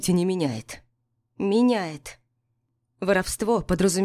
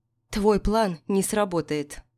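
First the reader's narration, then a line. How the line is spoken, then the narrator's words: Calm. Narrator (Russian): спокойно сказала Миранда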